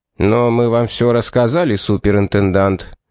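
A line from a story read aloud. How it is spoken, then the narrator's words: Gloomy interjection. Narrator (Russian): мрачно вставил Барт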